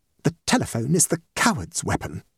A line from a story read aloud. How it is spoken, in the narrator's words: muttered Mrs